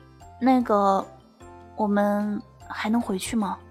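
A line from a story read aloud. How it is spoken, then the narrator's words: Soft. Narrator (Chinese): 他就轻声的对我说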